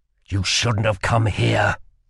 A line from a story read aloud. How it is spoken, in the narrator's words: growled Kell